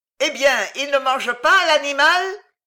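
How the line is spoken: Crowd shouting, laughing. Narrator (French): cria la foule en riant

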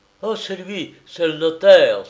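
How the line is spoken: Exclaimed. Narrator (French): s'écria Henri

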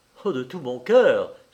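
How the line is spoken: Exclaiming. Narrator (French): s'écria Silas

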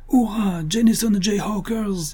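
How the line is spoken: Enthusiastic shout. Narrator (French): cria Bill enthousiasmé

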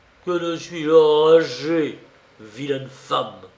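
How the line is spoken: Yelling. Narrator (French): vociféra-t-il

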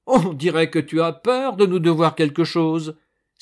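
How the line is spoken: Exclaimed. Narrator (French): s'écria Fulgence

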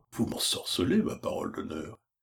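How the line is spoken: Grumbling. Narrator (French): Pécuchet en grommelant

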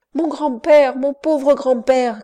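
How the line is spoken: Girl crying out. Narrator (French): criait la petite-fille du père Rabosa

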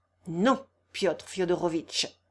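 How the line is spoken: Cold retort. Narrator (French): rétorqua froidement Ivan Ivanovitch

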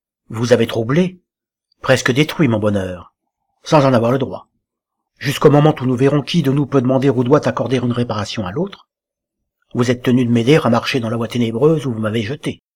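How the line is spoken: Grave voice. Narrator (French): reprit Jules d'une voix grave

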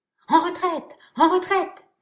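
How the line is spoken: Triumphant shout. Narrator (French): cria le chasseur qui venait alors de triompher de son adversaire

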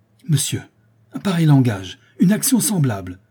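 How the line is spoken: Outraged exclamation. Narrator (French): s'écria la comtesse outrée

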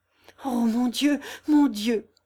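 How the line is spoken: Desperate voice. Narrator (French): fit-il d'une voix désespérée

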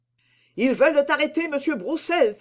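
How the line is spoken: Man exclaiming. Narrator (French): s'écria-t-il

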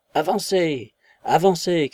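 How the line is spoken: Furious voices shouting. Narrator (French): criaient des voix furieuses derrière eux

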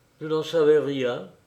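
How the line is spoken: Very quiet, tearful, stifled sigh. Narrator (French): répondit bien bas, en s'essuyant les yeux et en étouffant un soupir

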